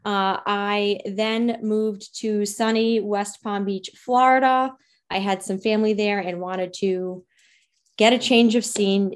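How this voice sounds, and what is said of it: Rhode Island accent. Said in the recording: “hence my amazing Rhode Island accent ... or should I say, wicked awesome”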